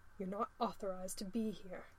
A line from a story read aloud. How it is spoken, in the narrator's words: snaps